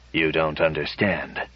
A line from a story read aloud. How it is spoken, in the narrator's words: Bly said stiffly